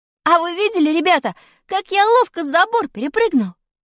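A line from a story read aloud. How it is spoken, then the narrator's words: Cheerful exclamation. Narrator (Russian): Весело воскликнул я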